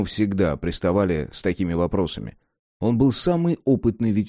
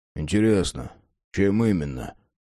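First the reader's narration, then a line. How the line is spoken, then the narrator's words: Sighing. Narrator (Russian): Ворон вздохнул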